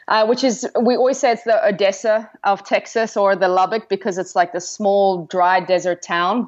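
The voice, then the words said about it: South African accent. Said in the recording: “you have this gorgeous accent ... I am from South Africa”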